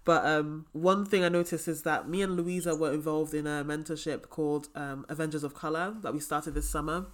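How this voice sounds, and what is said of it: Hoarse, failing voice. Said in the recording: “my voice is really horrible right now because I'm ill with many things. I've got tonsillitis and sinus problems, so I'm losing my voice.”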